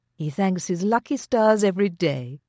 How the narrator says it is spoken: Louisa said sweetly

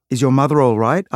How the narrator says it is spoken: I asked

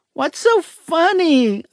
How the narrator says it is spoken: I cried, on the verge of catching her giggles

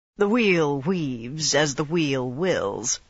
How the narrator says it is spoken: Rand said coolly

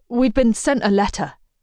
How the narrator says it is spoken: he splutters

